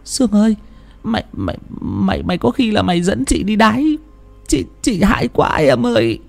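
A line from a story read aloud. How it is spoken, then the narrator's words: Terrified, trembling. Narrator (Vietnamese): Bà Sang hãi quá run rẩy quay sang bảo bà Sương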